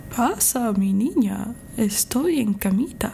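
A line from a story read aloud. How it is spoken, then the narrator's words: Wolf's disguised voice, imitating grandmother. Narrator (Spanish): Con voz disimulada, tratando de sonar como la abuelita, el lobo dijo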